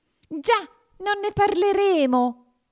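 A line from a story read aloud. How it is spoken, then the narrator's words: Trembling mouse shouting. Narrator (Italian): gridò il topo, che aveva la tremarella fino alla punta dei baffi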